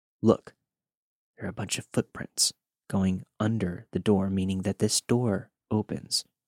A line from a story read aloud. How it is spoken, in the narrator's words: whispered to Josh